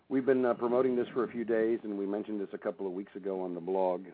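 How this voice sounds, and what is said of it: Congested, strange-sounding voice. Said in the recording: “with a cold, so my voice is going to be sounding a little strange this evening”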